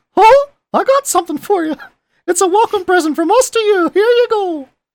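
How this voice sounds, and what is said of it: Mickey Mouse cartoon voice impression. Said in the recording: “in a Mickey Mouse voice ... Is that a good Mickey Mouse? ... That's pretty good.”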